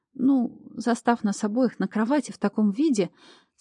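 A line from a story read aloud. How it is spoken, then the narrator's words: Embarrassed babble. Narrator (Russian): смущенно пролепетала я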